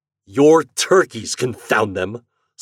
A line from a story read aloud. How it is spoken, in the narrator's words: snarled Mr